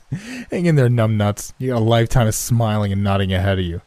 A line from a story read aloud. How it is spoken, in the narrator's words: He laughed and said